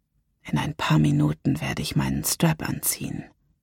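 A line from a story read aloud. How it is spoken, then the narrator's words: Whispered. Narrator (German): flüsterte ich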